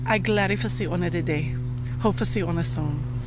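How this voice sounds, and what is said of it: Deep Gullah accent. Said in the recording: “I had a very deep Gullah accent, which you cannot pick up on now”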